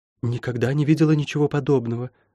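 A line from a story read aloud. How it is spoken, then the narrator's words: Whisper. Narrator (Russian): прошептала Лайон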